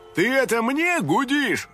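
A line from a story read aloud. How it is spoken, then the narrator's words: Shouting. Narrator (Russian): кричал кто-то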